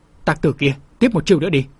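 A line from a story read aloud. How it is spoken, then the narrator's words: Charging shout. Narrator (Vietnamese): Thái Vân xông tới quát lên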